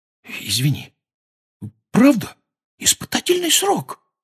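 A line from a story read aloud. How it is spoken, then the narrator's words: Whispered repetition. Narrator (Russian): повторил он шепотом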